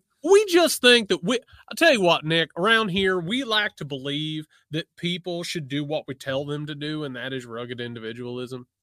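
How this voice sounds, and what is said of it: Exaggerated regional accent. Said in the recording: “I'm glad that you brought out the accent ... that's how my people talk”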